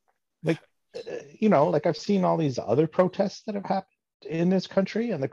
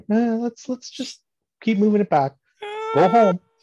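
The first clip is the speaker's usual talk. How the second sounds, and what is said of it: Canadian hoser accent. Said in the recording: “Just with like a hoser accent too. Like just making us sound real bad.”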